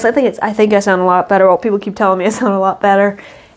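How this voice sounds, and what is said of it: Congested, sinus-affected voice. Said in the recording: “sorry about my voice. ... I've had sinus issues.”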